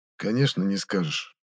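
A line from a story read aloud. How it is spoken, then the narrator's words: Quiet. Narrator (Russian): тихо произнес похититель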